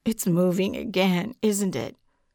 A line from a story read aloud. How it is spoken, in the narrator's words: Jason moaned